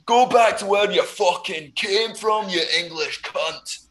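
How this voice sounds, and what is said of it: Convincing put-on Scottish accent. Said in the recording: “the incredible accent. See, he can pull out a good accent when he wants to. ... That was good. It's better than mine. I'm not even going to try and whip out my Scottish accent”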